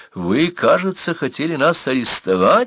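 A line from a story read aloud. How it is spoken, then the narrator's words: Cheerful question. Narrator (Russian): спросил он весело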